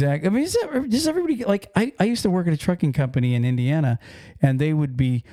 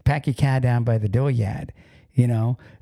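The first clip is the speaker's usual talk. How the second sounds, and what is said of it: Put-on Boston accent. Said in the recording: “If you go to Boston, right, you know the accent up there”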